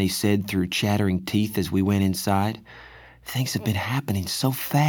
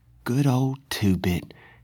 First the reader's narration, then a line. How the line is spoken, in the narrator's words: he said in a quavering voice